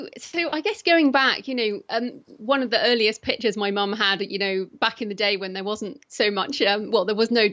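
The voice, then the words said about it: British accent. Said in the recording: “I'm British. So if people are wondering what my accent is, that's what it is.”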